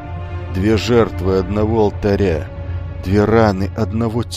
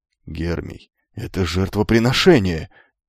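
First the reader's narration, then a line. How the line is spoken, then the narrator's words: Strained breathless gasp. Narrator (Russian): выдохнул Херон, и на шее кентавра вздулись лиловые вены, словно там, внутри, умирал неродившийся крик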